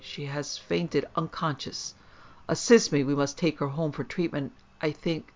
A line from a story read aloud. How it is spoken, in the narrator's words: he exclaimed